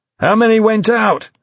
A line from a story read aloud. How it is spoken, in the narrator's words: he shouted to Dominic over the cacophony of ringing phones and shouting staff